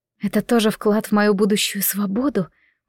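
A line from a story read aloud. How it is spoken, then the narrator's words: Hiss. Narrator (Russian): прошипела я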